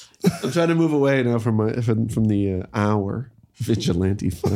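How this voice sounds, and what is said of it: Usual voice. Nothing is said of it.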